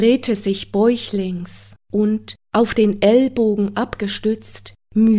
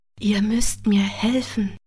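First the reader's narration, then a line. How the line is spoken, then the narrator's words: Murmured low. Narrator (German): raunte er zu ihr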